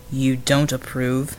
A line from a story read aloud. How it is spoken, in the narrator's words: Bulwark rumbled